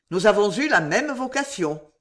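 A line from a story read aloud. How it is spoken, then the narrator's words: Sneering. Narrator (French): dit-il en ricanant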